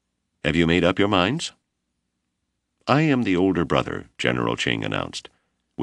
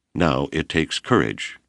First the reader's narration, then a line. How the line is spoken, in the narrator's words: Ching said solemnly